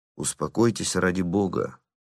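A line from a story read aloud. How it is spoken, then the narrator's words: Gentle, quiet. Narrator (Russian): ласково и тихо сказал он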